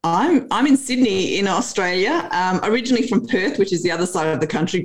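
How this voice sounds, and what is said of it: Australian accent. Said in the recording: “our audience already can tell from the accent that you're not from around here”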